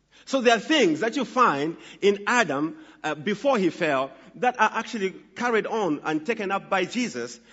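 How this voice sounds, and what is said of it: Northern accent. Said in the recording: “my northern accent”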